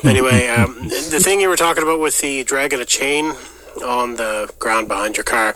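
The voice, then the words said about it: Strong Prince Edward Island accent. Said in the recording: “my strong Dartmouth or whatever accent, but it's actually from Prince Edward Island”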